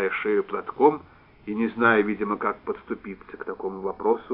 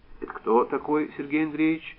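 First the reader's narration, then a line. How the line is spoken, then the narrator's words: Even-voiced question. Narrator (Russian): Ровным голосом осведовалась Люба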